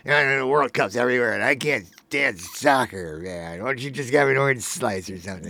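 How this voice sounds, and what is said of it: Imitates a grumpy soccer hater. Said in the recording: “What an impression. ... that's my impression of somebody who's like still doesn't enjoy soccer”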